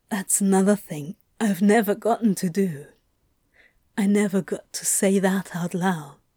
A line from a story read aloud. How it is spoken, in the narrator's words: in a shaky, quiet voice, he said